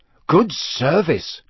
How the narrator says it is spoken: Ron said, in an impressed voice

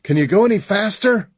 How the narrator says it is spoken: I yelled

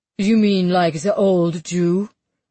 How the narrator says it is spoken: Emmett asks harshly

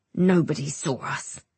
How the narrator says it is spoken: he grunts

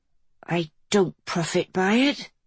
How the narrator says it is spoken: Lily muttered, wiping the tears from her cheeks

